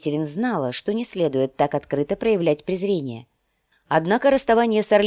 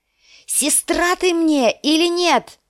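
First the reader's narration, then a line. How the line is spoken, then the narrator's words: Female shout. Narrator (Russian): закричала она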